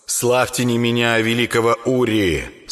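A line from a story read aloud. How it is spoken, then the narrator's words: Stern voice. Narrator (Russian): строгим голосом посоветовал Рыбаков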